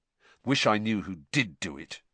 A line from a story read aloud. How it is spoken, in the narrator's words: said Harry bitterly